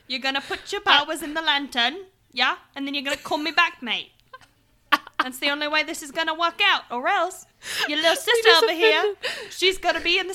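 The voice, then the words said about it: Put-on working-class British accent. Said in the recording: “turn into a British fucking milkmaid ... I only have two British accents, and it's either this one, Governor ... or it's a very posh accent ... I prefer choice A.”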